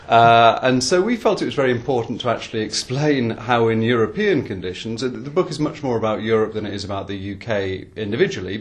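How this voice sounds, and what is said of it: Non-American accent. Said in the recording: “I'm not American, that's right. You can probably spot by the accent.”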